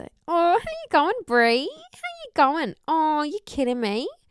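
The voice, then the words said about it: Imitated Australian accent. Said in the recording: “she's Australian ... You're really good at the accent”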